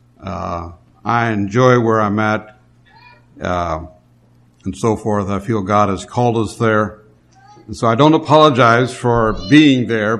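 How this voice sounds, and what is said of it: Southern drawl. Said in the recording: “I'm from the south, and they speak with a southern drawl”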